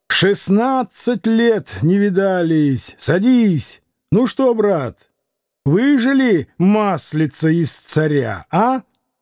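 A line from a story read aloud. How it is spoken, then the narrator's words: Shouted. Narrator (Russian): закричал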